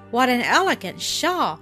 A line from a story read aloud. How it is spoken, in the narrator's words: she exclaimed